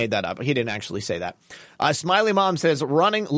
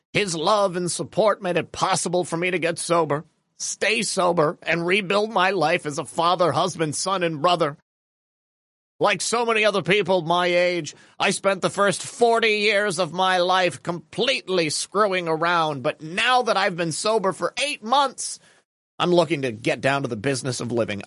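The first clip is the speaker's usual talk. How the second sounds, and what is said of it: Mitch impression. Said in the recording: “the Mitch impersonation was spot on”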